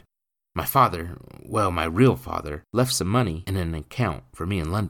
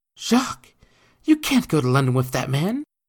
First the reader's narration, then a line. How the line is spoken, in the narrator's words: she exclaimed